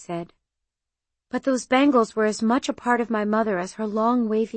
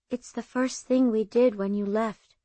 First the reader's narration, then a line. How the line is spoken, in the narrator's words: Seema said